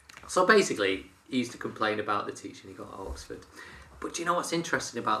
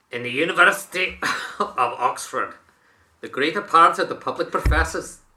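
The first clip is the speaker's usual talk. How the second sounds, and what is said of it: Attempted Scottish accent. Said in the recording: “I'll try a Scottish accent ... Oh, no, I can't do it.”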